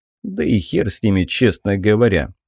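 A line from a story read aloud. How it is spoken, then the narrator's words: Snort. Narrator (Russian): хмыкнул я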